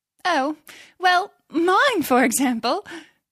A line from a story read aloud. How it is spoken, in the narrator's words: said Mavis with a little laugh